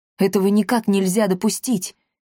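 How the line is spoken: Frightened. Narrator (Russian): испуганно сказал Ирвинг

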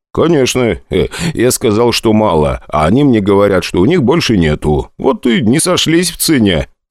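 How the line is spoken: Laughing. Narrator (Russian): посмеялся я

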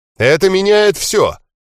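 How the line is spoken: Joyful proclamation. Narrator (Russian): радостно провозгласил Лонгросс

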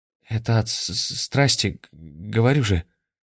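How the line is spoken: Stammering. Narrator (Russian): заикаясь, сказал парень

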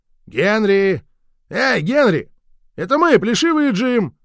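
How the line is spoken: Yelling. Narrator (Russian): Орал этот недоумок

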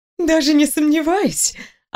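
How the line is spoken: Ringing laugh. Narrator (Russian): Она звонко рассмеялась

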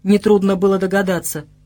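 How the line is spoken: Grumbled. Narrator (Russian): буркнул король, который недолюбливал Вышемира

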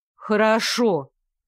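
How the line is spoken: Doubtful grumble. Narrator (Russian): пробурчала я, все еще испытывая определенные сомнения

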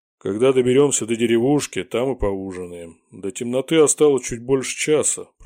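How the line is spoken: Grumbling bearded man. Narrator (Russian): проворчал бородач

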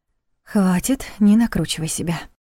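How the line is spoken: Muttered aloud. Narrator (Russian): вслух пробормотала Лиля

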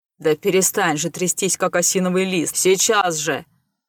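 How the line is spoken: Displeased growl. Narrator (Russian): зарычал пришелец недовольно

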